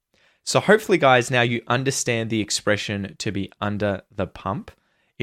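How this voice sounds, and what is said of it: Australian accent. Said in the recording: “sound more Aussie, just listen and repeat after me and try and practice my accent, my pronunciation”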